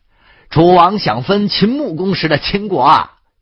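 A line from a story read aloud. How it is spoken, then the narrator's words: Loud voice. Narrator (Chinese): 赵成侯高声道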